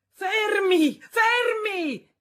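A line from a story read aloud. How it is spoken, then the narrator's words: Distant shout from street. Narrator (Italian): gridò una voce dalla strada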